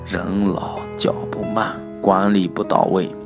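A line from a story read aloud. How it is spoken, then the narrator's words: Low-voiced father. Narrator (Chinese): 父亲低声说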